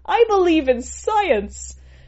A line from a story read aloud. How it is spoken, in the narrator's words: giggling, giggling